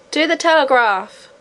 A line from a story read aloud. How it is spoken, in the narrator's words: roared the crowd